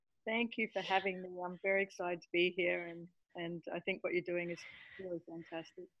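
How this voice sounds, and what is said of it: Australian accent. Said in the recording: “is not an American. She's from Australia, and I love her accent. ... we don't hear the American part. ... she has this very cool Australian accent”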